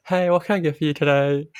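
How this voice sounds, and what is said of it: Customer service voice. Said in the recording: “customer service voice”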